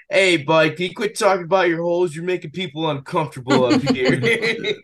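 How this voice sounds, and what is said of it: New York accent. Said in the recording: “in a true New York accent”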